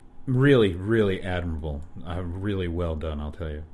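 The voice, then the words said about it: Bitter, dripping sarcasm. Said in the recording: “that was sarcasm... that was bitter, dripping sarcasm”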